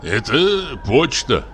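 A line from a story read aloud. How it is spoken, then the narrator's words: Grumbling. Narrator (Russian): проворчал Савелий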